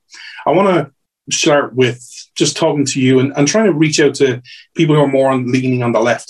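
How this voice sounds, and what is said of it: Speaks with a noticeable accent. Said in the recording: “you come for the accent”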